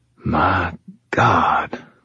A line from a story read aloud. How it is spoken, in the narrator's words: Rollins whispered again, his voice still stunned